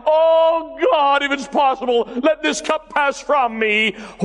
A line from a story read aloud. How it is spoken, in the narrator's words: He cried out